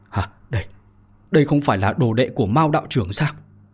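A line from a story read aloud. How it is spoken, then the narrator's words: Shocked stammer. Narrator (Vietnamese): Bạch Thế Bảo chấn động trong lòng, lắp bắp mà nói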